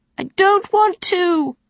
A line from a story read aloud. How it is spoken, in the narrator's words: wailed the boy, his eyes filling with tears